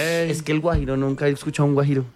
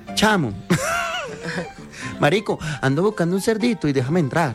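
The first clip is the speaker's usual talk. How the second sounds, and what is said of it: Put-on Venezuelan Spanish accent. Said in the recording (Spanish): “Cierre con venezolano ... el venezolano”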